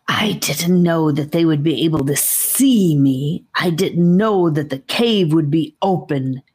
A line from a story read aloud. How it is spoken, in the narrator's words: growl hissed the first snake voice in an almost threatening way